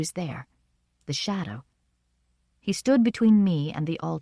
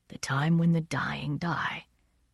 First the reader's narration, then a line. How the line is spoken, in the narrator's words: my poet said very softly